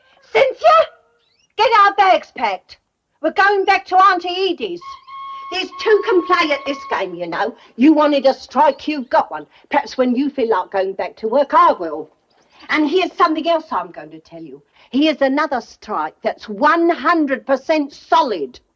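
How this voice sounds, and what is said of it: Same accent as a sitcom character. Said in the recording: “She sounds like Mrs. Brahms from Are You Being Served? She's got that same accent.”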